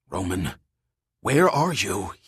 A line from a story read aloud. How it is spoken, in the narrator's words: hissed aloud, angry at the team's disappearance